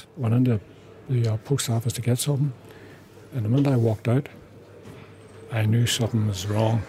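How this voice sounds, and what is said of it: Whispering. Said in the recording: “whispering”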